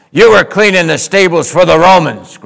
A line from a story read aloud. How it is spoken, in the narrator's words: growled the man as he clenched his fists